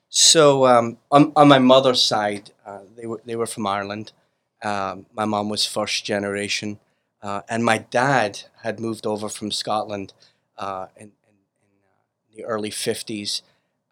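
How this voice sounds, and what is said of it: Strong accent. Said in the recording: “you to have this profound accent”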